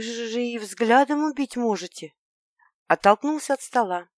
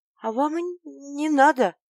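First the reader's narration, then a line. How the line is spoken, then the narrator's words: Strained, forced out. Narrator (Russian): выдавила я с трудом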